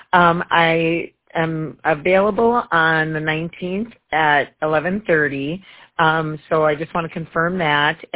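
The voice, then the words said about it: Hoarse, fading voice. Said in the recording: “I'm losing my voice here today.”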